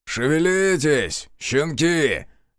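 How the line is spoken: Barked order. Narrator (Russian): рявкнул мастер

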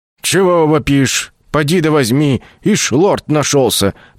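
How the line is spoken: Grumbling. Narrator (Russian): проворчала арчиха

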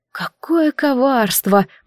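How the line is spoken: Admiring whisper. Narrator (Russian): прошептала я, восхищенно

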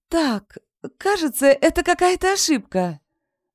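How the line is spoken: Ringing voice. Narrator (Russian): заговорила Ветрова звенящим голоском

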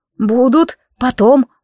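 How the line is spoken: Promised, holding back tears. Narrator (Russian): пообещала, не находя в себе желания разрыдаться

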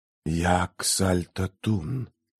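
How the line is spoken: Eerie whisper. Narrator (Russian): раздался жуткий шепот

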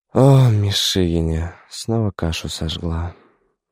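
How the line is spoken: Sighing mother. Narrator (Russian): вздохнула мать

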